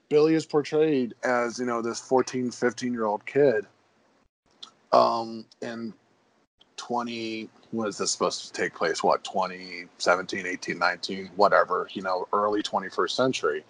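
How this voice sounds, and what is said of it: Hoarse, failing voice. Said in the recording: “Don't know why I'm losing my voice suddenly ... You're getting all choked up ... my voice is just like, nope, not tonight”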